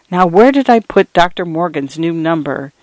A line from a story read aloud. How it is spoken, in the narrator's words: muttering to herself